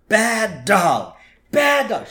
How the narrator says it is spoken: Marge is yelling at Santa's little helper

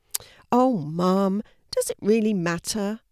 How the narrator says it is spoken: Louis groaned, not in the least bit interested in rubbish bins

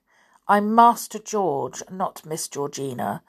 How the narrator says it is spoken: said George in a cold voice

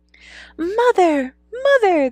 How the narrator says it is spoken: they cried when they saw her

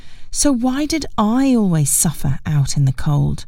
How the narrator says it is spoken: I sighed

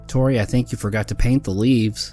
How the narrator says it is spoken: Mary giggled

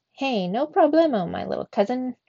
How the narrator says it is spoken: squeaked Trap

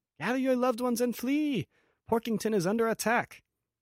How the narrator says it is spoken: he shouts

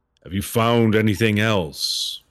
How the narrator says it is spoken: the statue bellows out

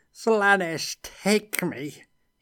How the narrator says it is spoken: he shrieked

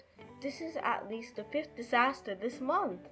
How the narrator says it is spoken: Sandra exclaimed

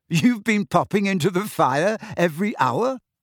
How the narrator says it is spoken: Harry said, half laughing

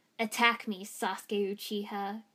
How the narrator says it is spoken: Gaara growled

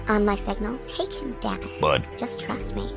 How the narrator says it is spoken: muttered

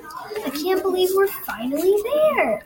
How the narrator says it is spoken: excitedly said

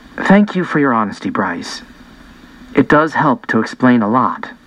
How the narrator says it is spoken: very softly, she said

